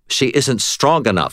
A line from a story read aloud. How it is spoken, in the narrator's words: snapped